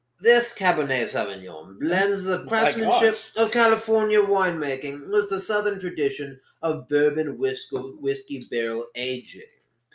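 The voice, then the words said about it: Put-on posh accent. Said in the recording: “in my best posh accent ... Posh.”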